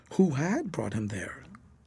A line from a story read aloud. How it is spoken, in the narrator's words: each asked the other in whispers